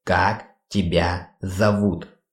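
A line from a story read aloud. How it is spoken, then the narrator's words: Slow, syllable by syllable. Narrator (Russian): Медленно, почти по слогам, повторил кастомайзер клана Денджеров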